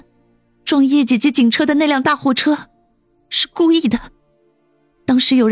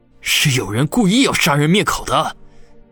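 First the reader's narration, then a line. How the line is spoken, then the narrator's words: Shaking, through gritted teeth. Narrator (Chinese): 王宇却如同遭到了雷击，浑身都剧烈的颤抖了起来，咬牙切齿的说道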